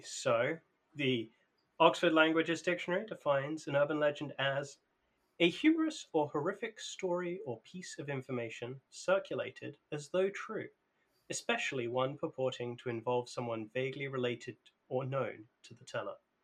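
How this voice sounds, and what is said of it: Proper English accent. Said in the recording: “Was that a suitably proper English accent for you?”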